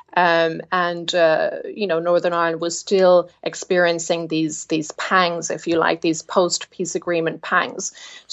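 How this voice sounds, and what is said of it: Irish accent from the Republic. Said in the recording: “my accent, etc., indicates to people in Northern Ireland that I come from the Republic”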